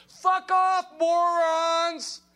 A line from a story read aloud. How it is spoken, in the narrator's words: someone screams